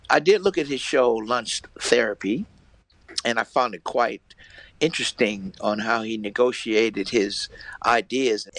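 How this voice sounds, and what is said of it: American accent. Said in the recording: “he's a fellow Yankee... the American accent”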